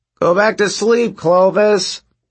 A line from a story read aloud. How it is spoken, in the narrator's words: someone yelled